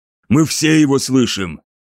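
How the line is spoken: Snapping retort. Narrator (Russian): огрызнулся Муршит

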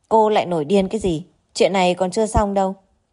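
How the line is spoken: Cold. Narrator (Vietnamese): Lục Trình Dương lạnh lùng nói

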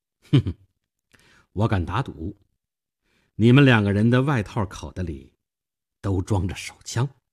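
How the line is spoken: Faint smile. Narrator (Chinese): 我淡淡的一笑

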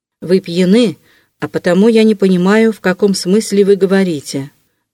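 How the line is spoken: Stern. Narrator (Russian): заметил он строго

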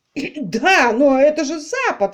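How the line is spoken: Exclaimed. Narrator (Russian): воскликнул Тортон

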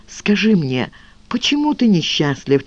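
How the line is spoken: Quiet question. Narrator (Russian): тихо спросила

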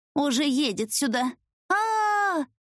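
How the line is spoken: Scream. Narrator (Russian): закричала я

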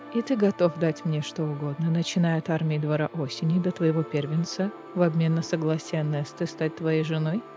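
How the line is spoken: Quiet growl. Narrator (Russian): Кассиан тихо зарычал

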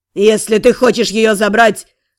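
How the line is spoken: Growled. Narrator (Russian): прорычал

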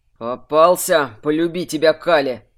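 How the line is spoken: Through gritted teeth. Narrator (Russian): процедил Варрик

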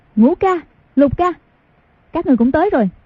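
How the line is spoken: Girl exclaiming. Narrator (Vietnamese): Cô gái kêu lên

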